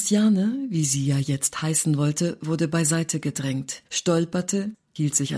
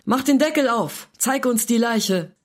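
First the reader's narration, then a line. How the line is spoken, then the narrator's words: Someone shouting. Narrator (German): Einer schrie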